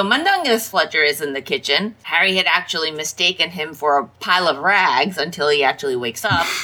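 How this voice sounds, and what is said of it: Usual voice. Nothing is said of it.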